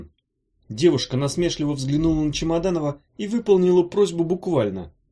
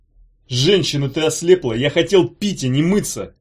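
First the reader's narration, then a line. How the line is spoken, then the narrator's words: Howling wail. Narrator (Russian): взвыл Петруччи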